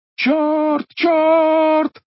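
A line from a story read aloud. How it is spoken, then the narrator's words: Frantic shouting. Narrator (Russian): кричал он без памяти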